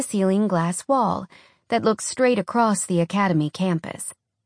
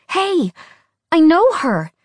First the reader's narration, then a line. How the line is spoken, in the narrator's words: she cried